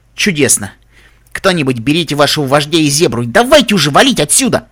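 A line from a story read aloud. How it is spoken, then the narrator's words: Growl. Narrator (Russian): прорычала Реджи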